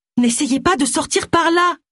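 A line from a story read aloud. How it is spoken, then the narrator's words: Shout. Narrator (French): cria Tony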